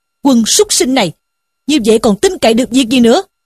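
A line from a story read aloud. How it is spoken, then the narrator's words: Angry scolding shout. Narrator (Vietnamese): Sử Tiến bần bần quát mắng rằng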